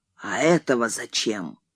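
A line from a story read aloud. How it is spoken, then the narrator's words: Hoarse question. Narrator (Russian): он спросил сипло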